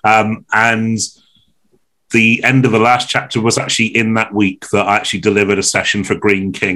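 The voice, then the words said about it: Slightly strained, flaky voice. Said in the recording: “my voice is a little bit flaky”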